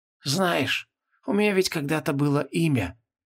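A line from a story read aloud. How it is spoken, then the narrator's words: Muttering. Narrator (Russian): пробормотал архидемон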